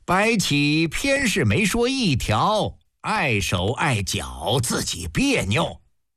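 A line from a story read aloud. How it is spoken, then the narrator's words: Hearty laughter. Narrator (Chinese): 魏冉哈哈大笑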